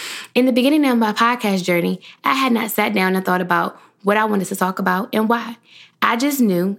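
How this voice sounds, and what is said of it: Usual voice. Nothing is said of it.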